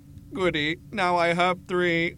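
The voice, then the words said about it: Metallic alien character voice. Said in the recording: “the alien says in a metallic voice.”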